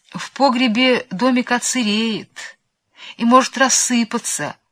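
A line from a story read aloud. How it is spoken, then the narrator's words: Timid objection. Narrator (Russian): робко возразил кум Тыква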